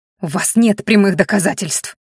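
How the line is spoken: Through gritted teeth. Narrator (Russian): процедила сквозь зубы Маяри

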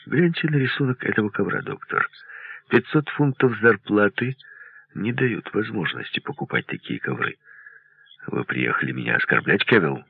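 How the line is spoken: Calm. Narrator (Russian): Потом произнес спокойно

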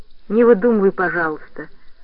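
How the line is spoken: Soft, gentle. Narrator (Russian): сказал он мягко

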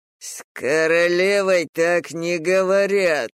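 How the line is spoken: Growled. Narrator (Russian): прорычал Фальк

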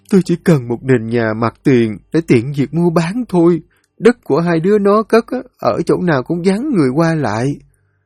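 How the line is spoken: Weeping. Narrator (Vietnamese): Bà Hận lại cúi đầu xuống khóc lóc

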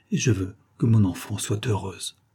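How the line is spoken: Emotional murmur, poor mother. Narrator (French): murmura la pauvre mère avec émotion

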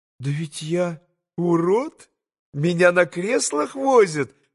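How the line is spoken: Laughing, blushing. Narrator (Russian): засмеялась Лиза с зардевшимся на щеках румянцем

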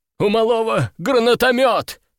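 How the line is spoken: Exclaiming. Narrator (Russian): воскликнул кто-то

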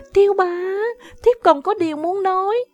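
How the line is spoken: Startled cry. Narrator (Vietnamese): kêu lên

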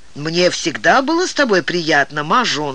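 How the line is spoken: Plain. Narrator (Russian): сказал Даогань

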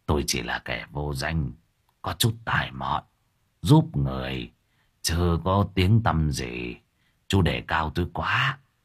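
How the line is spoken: Smiling, gentle calm. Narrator (Vietnamese): Thầy ba mỉm cười giọng từ tốn

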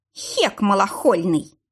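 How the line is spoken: Hissing through teeth. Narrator (Russian): сквозь зубы прошипел Виталик

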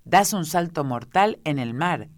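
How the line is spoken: Booming voice. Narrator (Spanish): expresó con voz tonante la tortuga

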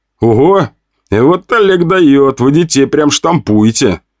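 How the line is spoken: Laughing. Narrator (Russian): Я рассмеялся

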